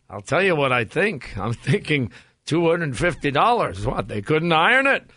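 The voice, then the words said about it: Puts on an accent for a character. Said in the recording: “I threw a little accent in there. You see the accent? ... You threw accent in.”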